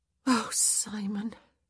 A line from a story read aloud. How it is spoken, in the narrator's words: she sighed